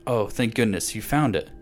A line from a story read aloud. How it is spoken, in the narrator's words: she cried